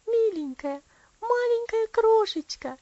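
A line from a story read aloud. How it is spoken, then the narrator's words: Tender girl's exclamation. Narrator (Russian): воскликнула девочка, нежно целуя малышку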